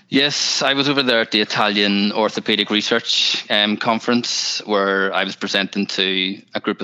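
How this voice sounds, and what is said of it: Northern Irish accent. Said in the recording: “You're our first European accent on this podcast ... the Northern Irish accent”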